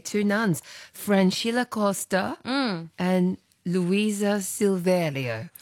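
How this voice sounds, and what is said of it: Put-on Brazilian accent. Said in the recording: “with our best Brazilian accent. Impressive, isn't it? ... That was beautiful.”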